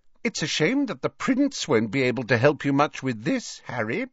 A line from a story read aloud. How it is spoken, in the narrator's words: she said brightly